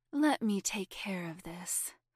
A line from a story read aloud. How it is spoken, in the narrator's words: Laura murmured